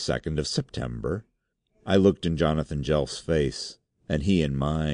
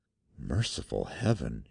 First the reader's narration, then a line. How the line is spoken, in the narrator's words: he whispered